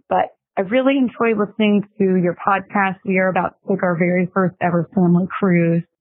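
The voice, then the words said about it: Raspy, hoarse voice. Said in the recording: “My voice is a little raspy ... so I'm a little hoarse.”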